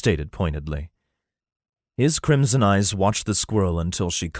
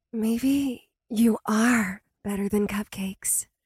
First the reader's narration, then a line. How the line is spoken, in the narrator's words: happily, she whispered